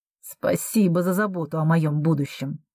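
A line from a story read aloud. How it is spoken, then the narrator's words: Through gritted teeth. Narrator (Russian): цедит Алекс сквозь зубы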